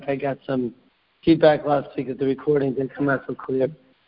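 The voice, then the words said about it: Unclear, not-yet-recovered voice. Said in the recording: “my voice is still not back ... our voice is not so clear”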